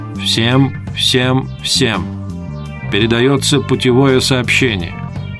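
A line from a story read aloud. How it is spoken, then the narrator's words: Harsh, flat, slow machine voice. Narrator (Russian): Жесткий, слабо модулированный голос, каким говорили малогабаритные переводные машины на кораблях, медленно произнес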